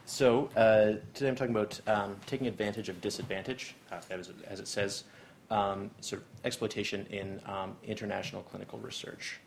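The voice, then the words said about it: Canadian English accent. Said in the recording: “As you can hear from my accent, I am from Canada. So just raise your hands if I get a little bit too thick of my accent”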